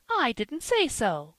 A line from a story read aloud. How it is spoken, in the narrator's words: cried Polly, starting up